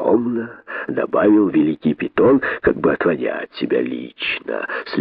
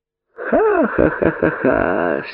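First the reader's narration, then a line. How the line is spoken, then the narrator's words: Laughter. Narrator (Russian): смеялись удавы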